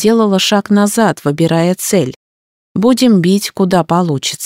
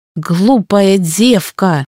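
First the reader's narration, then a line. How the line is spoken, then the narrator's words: Growled. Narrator (Russian): зарычал Мирункша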